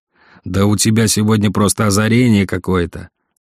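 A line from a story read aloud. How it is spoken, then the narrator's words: Angry snarl. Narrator (Russian): зло оскалился Владимир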